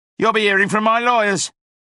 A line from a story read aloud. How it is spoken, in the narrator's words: shouted Sloane